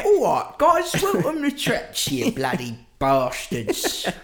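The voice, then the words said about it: Put-on Cockney accent. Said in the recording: “too much of a Cockney accent”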